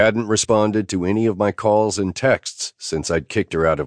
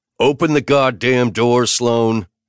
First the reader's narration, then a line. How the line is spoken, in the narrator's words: I bellowed